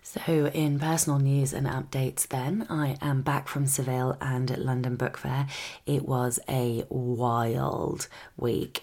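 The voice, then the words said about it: Tired, exhausted-sounding voice. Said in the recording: “I'm absolutely exhausted. I think you can probably hear it in my voice.”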